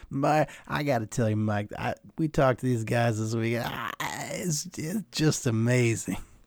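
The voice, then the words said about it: Bad Cris Collinsworth impression. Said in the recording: “Collinsworth ... They always impersonate him on the Phil Simmons podcast ... Just that bad impression.”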